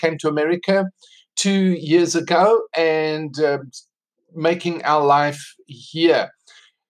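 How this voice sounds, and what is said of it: South African accent. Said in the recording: “I'm South African. That's why I have this accent. I don't have American accent.”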